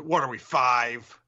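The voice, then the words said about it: Imitates another person's voice. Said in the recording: “my best Jim Florentine impression”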